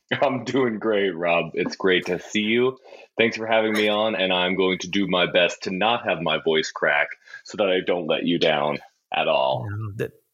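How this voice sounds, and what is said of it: Silky smooth radio voice. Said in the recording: “he has probably the best ... radio ... Voice of all time ... just listen how silky smooth that is ... You're the guy with the radio voice”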